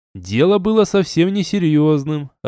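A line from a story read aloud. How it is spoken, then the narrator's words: Laughing. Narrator (Russian): рассмеялся я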